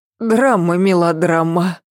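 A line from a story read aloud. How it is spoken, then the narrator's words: Reply then laughter. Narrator (Russian): отозвалась она и засмеялась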